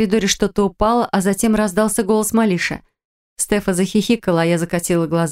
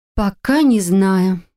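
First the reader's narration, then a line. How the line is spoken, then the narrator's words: Breathed out. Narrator (Russian): выдохнула я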